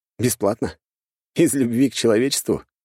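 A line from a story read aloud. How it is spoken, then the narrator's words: Scoffing grunt. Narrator (Russian): хмыкнул я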